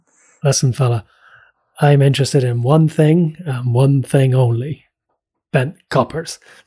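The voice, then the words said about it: Impression of a TV detective character. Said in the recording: “great Hastings impersonation ... no one does the impression better than you”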